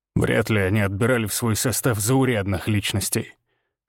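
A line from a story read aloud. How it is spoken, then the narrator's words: Skeptical snort. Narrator (Russian): хмыкнул Григор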